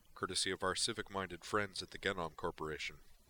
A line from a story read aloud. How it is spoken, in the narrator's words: Grissom added dryly